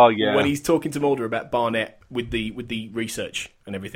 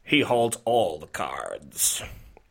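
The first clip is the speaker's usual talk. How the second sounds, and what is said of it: Attempted Deep Throat impression. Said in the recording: “I'll do it in the accent. ... Which is deep throat or an attempt at deep throat.”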